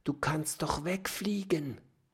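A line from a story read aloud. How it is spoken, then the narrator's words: Whisper. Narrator (German): flüstert Oskar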